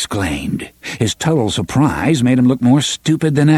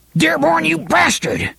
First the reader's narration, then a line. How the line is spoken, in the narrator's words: Hash Renfrew spat